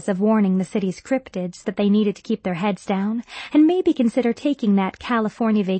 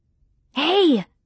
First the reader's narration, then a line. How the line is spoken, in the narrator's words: I half-whispered, half-shouted, pressing my mouth up to the crack in the door